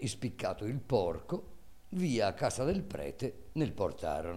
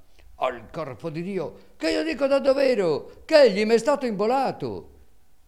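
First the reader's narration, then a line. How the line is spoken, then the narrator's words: Louder shouting. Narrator (Italian): Calandrino gridava allora più forte e diceva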